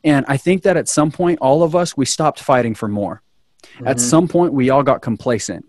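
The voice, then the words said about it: Fiery, excited impassioned speaking. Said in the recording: “you hear the fire in my voice, the excitement in my voice”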